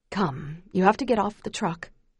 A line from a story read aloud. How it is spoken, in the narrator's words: Pa says gently